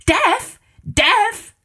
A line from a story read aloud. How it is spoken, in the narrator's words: screamed the king